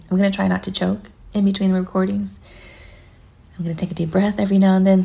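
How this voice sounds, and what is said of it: Slightly raspy, phlegmy voice. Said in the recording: “I have a little phlegm going on here, so don't mind me if I sound a little bit raspy.”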